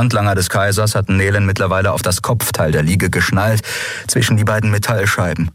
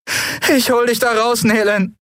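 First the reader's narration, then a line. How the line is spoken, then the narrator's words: Anguished promise. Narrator (German): versprach Andriel mit gequälter Stimme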